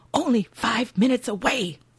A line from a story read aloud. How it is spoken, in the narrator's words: He hisses